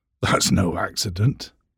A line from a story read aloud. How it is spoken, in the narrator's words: said gruffly